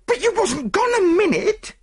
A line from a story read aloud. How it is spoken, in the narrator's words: retorted the chambermaid angrily